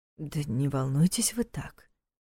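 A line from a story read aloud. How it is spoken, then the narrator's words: Quiet speech. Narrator (Russian): тихо сказал ему Нев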